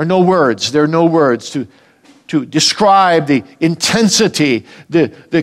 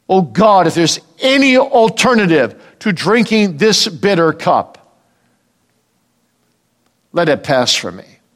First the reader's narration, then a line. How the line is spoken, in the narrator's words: And he cried out